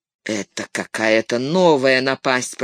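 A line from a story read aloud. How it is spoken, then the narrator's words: Grumbled. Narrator (Russian): проворчал он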